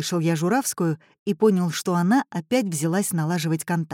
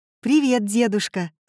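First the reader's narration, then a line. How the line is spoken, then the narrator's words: Plain. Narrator (Russian): сказала Журавская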